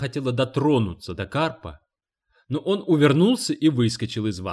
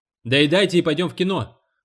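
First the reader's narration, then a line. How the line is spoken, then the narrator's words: Shouted. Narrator (Russian): крикнул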